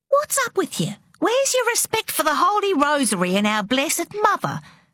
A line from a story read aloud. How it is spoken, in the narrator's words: demanded Mama sharply